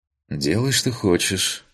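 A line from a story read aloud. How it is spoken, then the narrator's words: Sighing. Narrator (Russian): вздохнул я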